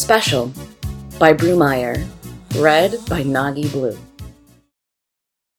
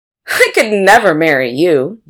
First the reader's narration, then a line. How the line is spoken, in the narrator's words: Jennifer had laughed